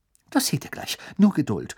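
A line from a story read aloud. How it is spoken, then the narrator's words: Excited. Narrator (German): sagte Hermine aufgeregt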